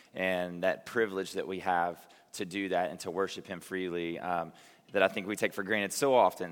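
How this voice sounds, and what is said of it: Hoarse, strained voice. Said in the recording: “I yelled way too much at the game last night. I'm losing my voice”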